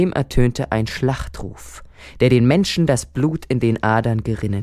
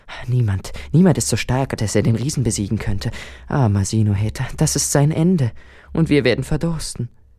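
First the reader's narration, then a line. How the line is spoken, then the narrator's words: Pitying whispers among crowd. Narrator (German): Die Frauen und Männer bemitleideten und flüsterten untereinander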